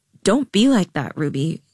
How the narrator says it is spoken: Jade said

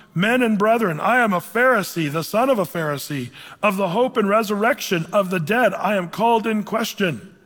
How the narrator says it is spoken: he cried out in the council

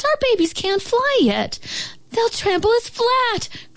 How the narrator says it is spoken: cried the wildflowers

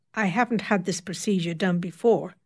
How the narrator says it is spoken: said curtly

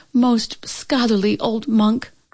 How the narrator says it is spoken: cried the proud Chin Yumin

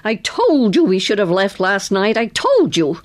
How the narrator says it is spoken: a faded blonde woman who shouted at him

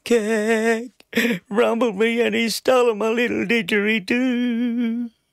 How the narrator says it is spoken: Between my sobs, I managed to weep

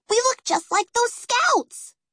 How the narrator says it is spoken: Peggy squealed

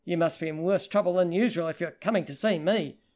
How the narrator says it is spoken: he growled

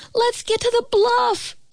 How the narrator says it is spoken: Eli cried out

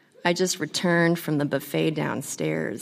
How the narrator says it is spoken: he said

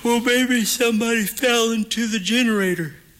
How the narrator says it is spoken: Eric stifles a yawn as he answers

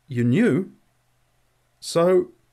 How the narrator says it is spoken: He stammered

